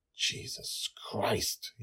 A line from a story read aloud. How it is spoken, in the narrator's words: he whispered